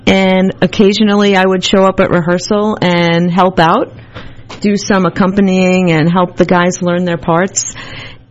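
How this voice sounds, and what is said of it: Long Island accent. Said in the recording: “I'm originally from Long Island, if you can't tell by my accent.”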